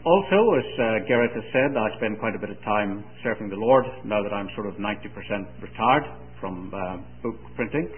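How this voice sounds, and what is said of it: Mixed Northern Irish, English, Scots accent. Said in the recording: “my accent being a sort of mixture of Northern Irish, English, and Scots”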